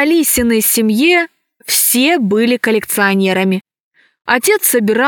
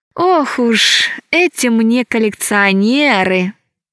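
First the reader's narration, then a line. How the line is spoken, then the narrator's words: Sighing. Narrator (Russian): вздохнула Алиса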